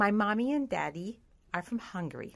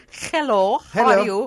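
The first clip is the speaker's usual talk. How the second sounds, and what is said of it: Put-on Russian accent. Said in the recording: “That's the Russian... That's sort of like a Russian thing.”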